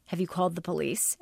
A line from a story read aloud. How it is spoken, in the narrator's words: Alex asked